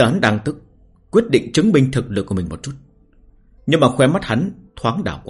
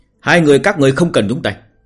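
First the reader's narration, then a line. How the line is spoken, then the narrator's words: Single sharp shout. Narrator (Vietnamese): Khương Vọng chỉ quát một tiếng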